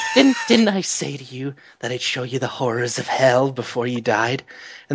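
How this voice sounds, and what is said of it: Imitates spoiled effeminate villain voice. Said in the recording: “He's like a spoiled, effeminate prince ... I didn't do a good impression of that at all.”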